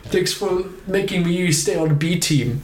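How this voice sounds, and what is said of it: Decent put-on German accent. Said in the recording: “That was a decent German accent.”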